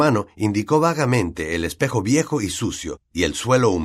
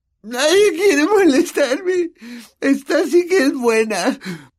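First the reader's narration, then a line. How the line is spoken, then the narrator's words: Moan. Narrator (Spanish): gimió Myrtle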